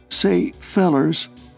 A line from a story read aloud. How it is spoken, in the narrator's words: he said pleadingly